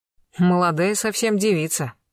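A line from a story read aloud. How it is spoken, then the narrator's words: Snorting scoff. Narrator (Russian): хмыкнул полосатик Блистанов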